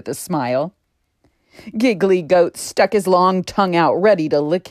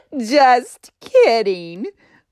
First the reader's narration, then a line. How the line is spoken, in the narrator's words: Funny Ferret cackled